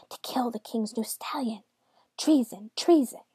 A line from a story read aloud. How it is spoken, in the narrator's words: The other servants, who had never loved misshapen Johannes, whispered